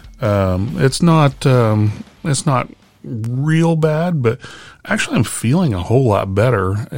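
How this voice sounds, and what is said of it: Slightly rough, hoarse voice. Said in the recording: “you've been having this cold for oh, a long time now ... you might be able to still tell my voice is a little rough”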